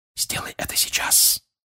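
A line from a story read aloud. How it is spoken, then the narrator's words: Whisper. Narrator (Russian): прошептал отец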